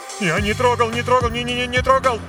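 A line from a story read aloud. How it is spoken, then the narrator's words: Terrified rapid chatter. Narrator (Russian): Затараторил он с ужасом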